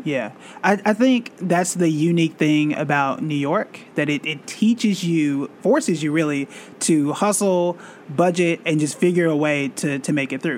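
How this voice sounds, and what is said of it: Oklahoma accent. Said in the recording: “If you can't tell by my accent, I'm not initially from here. So I'm originally from Tulsa, Oklahoma”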